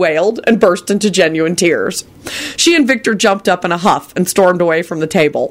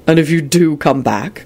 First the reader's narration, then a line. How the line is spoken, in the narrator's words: Quentin said blandly